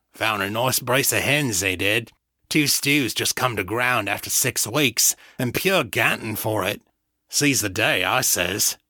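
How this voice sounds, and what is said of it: Careless lower-class street accent. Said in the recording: “His accent was brazenly careless, mimicking the speech of the street rats of the Valley South Borough.”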